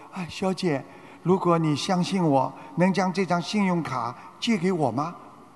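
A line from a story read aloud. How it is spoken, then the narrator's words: Embarrassed, quiet. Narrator (Chinese): 他当时有点尴尬，瓦伦丁看出他有点难为情，小声地说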